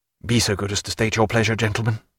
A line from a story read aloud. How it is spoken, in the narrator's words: said Stephen sharply